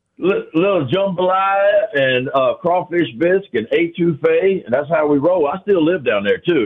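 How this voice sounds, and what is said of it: Cajun accent. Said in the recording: “you got that Cajun accent.”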